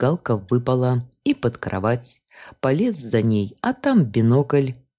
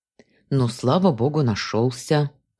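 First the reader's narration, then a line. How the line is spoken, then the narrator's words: Breathed out, relieved. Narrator (Russian): выдохнула я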